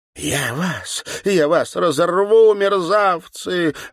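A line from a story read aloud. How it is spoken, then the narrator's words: Desperate shout. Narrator (Russian): выкрикнула Серафима Яковлевна таким отчаянным голосом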